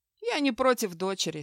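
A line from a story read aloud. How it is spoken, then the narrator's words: Calm. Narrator (Russian): спокойно кивнул Хью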